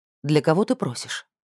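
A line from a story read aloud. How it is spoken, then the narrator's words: Sharp question. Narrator (Russian): резко спросила Баяситу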